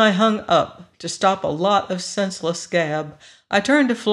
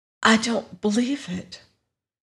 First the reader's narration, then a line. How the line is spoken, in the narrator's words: in a barely audible voice